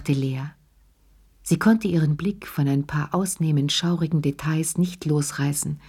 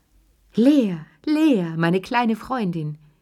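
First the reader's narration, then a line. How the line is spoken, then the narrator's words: Old woman calling out. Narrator (German): rief die alte Lilli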